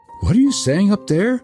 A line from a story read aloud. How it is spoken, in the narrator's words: cried Gerda